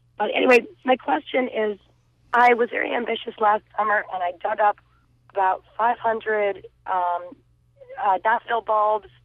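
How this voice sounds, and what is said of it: Hoarse voice. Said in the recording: “I'm very hoarse.”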